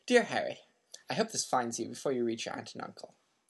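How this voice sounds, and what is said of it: Put-on British accent. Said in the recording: “I'll give him a nice British accent.”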